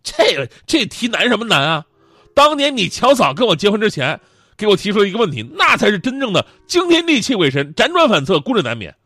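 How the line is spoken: Smiling. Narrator (Chinese): 徐翔跟我微微一笑，说

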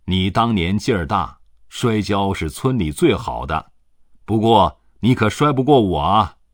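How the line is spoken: Laughing. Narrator (Chinese): 习近平笑着对他说

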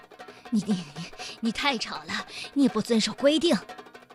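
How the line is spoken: Breathless. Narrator (Chinese): 马兵先生喘着气说

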